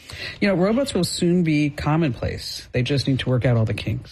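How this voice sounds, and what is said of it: New Jersey accent. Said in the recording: “Stop making fun of me the way that I say robots. ... That's my New Jersey accent coming out.”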